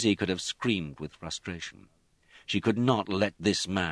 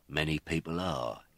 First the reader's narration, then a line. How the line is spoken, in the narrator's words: he said, and the threat in his voice was hardly veiled